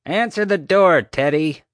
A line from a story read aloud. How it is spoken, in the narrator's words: hollered